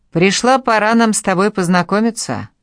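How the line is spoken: Killer's hmph. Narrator (Russian): Убийца хмыкнул

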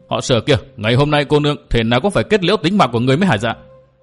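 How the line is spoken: Angry scolding shout. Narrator (Vietnamese): Người đó quát mắng

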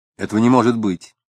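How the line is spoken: Stern. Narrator (Russian): строго сказал Самгин

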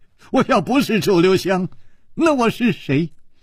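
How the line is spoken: Wry, bitter. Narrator (Chinese): 楚留香苦笑着说

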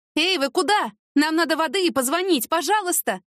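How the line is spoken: Shouted after someone. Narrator (Russian): крикнула ей вслед Яна

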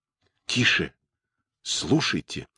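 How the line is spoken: Sudden low whisper. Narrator (Russian): внезапно прошептал Дик, понизив голос

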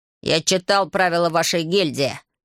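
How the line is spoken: Snapping. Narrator (Russian): огрызнулся Рейца

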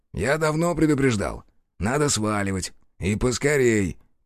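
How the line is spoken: Grumbling. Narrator (Russian): пробурчал Рух

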